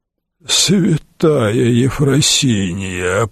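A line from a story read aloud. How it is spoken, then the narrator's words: Groaning. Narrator (Russian): простонал аббат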